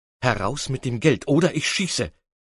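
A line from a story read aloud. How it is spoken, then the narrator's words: Plain. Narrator (German): sagte er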